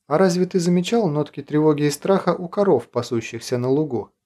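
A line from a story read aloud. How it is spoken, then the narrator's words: Quiet question. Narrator (Russian): негромко спросил Лобов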